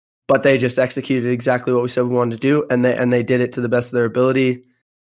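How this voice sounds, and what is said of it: Worn, strained voice. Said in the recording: “You can probably tell by my voice, I was yelling a lot.”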